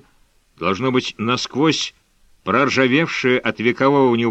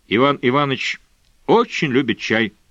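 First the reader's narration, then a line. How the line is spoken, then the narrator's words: Unexpectedly calm. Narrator (Russian): неожиданно спокойно произнес Эдвард Мараховский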